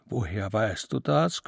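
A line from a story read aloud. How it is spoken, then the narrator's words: Panting. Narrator (German): keuchte Lichtendorf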